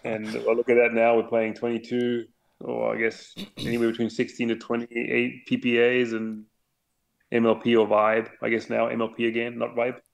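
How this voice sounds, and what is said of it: English with Australian-sounding accent. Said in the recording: “your accent kind of sounds Australian almost to me ... my accent is definitely not a German English accent”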